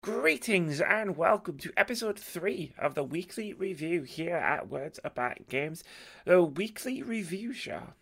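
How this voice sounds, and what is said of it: Hoarse, fading voice. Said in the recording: “I am losing my voice”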